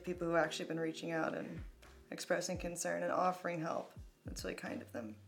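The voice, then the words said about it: Hoarse, nearly gone voice. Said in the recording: “Sorry if I sound gross. I've been screaming and crying a lot recently. ... My voice is really almost gone”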